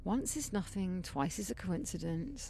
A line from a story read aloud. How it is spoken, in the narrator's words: I muttered uncertainly